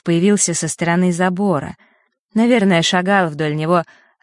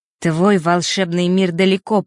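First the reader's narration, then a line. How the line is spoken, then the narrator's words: Muttered through teeth. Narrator (Russian): процедил он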